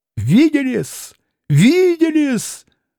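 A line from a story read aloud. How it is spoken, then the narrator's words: Frenzied shrill shriek. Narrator (Russian): взвизгнул он Алёше, бледный, иступлённый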